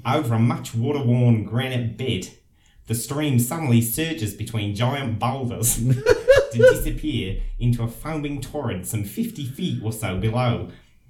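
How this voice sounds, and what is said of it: Lovely native accent. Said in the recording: “What a lovely accent.”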